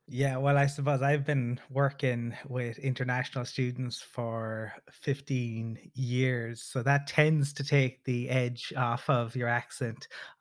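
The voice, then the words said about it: Slow-paced Irish accent. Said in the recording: “you're more of a slow speaker with this whole Irish accent though.”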